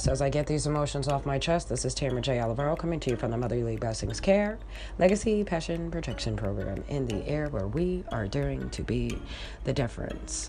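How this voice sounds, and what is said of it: Flat, monotone delivery. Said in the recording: “this will sound a little bit monotone”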